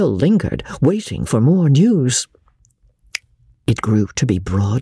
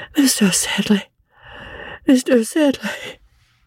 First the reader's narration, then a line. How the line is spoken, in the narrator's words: cried the boy faintly